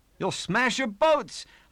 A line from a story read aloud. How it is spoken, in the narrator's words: called out again and again as the seas crashed on the cabin over my head